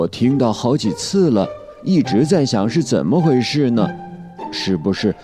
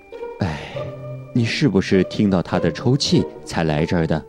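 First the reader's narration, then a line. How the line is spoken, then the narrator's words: Sighing teacher. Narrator (Chinese): 莎莉老师叹了口气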